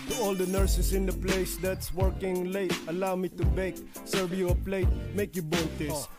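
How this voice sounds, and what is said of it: Exaggerated Filipino accent, rapping. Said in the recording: “his Born Filipino accent”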